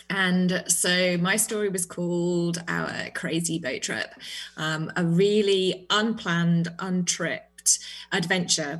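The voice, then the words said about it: British accent. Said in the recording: “That lovely accent of yours. ... I am British”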